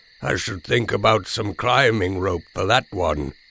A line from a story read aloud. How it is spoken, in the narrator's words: said, as cheerfully as I could